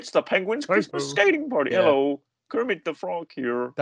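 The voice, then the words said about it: Kermit the Frog character voice. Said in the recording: “should I do the Kermit voice?”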